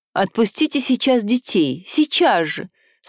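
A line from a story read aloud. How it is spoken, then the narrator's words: Pleading voice. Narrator (Russian): сказала она умоляющим голосом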